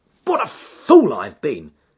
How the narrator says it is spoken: cried

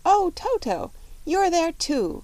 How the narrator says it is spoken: she exclaimed

